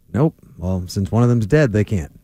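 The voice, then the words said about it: Deadpan flat delivery. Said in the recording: “That was deadpan delivery.”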